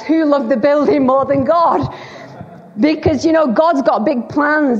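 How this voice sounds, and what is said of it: Lancashire English accent. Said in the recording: “accent. I'm a Lancashire lass. I've been in Wales 25 years”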